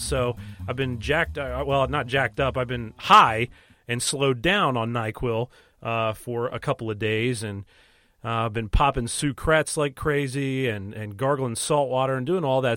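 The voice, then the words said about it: Under-the-weather, strained voice. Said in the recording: “I don't know if you can tell, but my voice is not really up to snuff today ... battling some kind of late fall illness”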